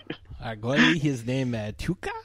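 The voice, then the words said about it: Put-on French Canadian accent. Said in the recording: “pitch perfect French Canadian accent I'm hearing. It's like I'm actually in the province of Quebecois.”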